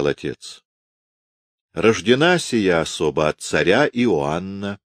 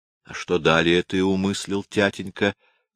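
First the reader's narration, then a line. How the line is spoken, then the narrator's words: Plain question, son. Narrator (Russian): спросил сын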